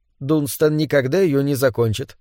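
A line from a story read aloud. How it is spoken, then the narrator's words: Calm. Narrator (Russian): спокойно сказала Кэс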